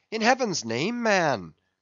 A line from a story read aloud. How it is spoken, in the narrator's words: cried Stubb